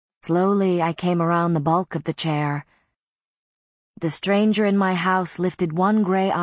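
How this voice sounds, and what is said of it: Usual voice. Nothing is said of it.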